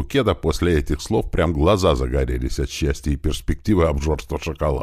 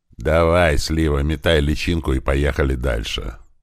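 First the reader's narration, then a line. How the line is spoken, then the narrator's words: After laughing, amused. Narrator (Russian): просмеявшись, сказал я ему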